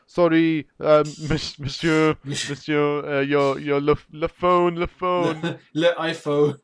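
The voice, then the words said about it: Put-on French accent. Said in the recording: “that's my French accent.”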